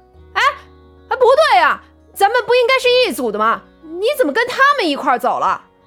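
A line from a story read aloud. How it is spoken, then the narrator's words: Belated startled shout. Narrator (Chinese): 苗阿飘才反应过来，叫道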